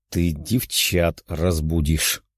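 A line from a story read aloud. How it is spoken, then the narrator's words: Quiet. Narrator (Russian): тихо ответил он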